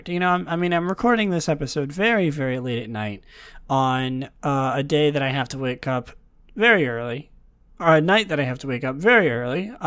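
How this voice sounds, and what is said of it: Slightly raspy, sleepy voice. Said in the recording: “my voice is a little raspy. ... Maybe I'm a little sleepy.”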